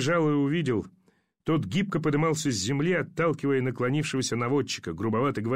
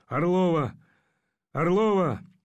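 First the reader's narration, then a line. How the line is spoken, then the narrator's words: Hoarse calling. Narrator (Russian): зовущий хриплый голос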